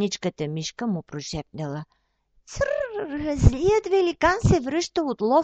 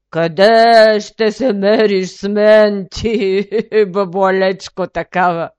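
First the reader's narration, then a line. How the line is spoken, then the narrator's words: Giant's thunderous laughter. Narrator (Bulgarian): Великанът е гръмко се разсмял, че цялата планина се разтресла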